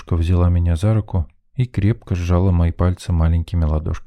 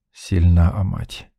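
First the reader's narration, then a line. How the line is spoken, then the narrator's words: Smirking grunt. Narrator (Russian): хмыкнул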